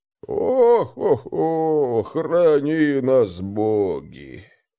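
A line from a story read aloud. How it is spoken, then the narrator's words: Sorrowful sigh. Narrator (Russian): горестно вздохнул Лодин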